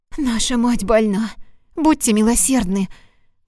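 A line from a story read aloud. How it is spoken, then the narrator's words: Pleading. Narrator (Russian): взмолилась Лусия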